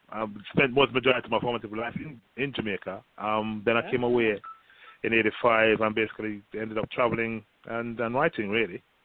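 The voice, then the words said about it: Jamaican accent with British twist. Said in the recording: “I hear the Jamaican accent, but I also hear the British. So you got a little you got a little twist of both”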